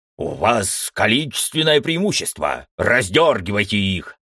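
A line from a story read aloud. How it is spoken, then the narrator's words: Barked command. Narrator (Russian): рявкнул командор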